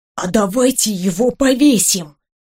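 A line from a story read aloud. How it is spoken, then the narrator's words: Whispered suggestion. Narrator (Russian): шепотом предложил Максимилиан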